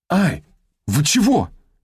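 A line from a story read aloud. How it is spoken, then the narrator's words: Pained yelp. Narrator (Russian): вскрикнула Шапкина, когда техник вырвал у нее несколько черных волос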